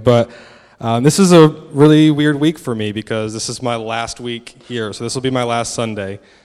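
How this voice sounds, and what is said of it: American accent. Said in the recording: “I'm obviously American, so hopefully the accent isn't too difficult to understand.”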